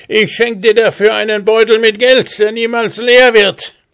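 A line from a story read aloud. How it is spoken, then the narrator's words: Shouting. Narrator (German): rief er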